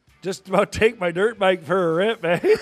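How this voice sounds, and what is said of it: Canadian accent imitating Marty Biron. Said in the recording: “He sounds so Canadian... That's, ladies and gentlemen, Marty Biron, take notes. That's a Canadian accent.”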